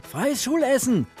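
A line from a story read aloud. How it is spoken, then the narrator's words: Calling out. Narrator (German): rief Spencer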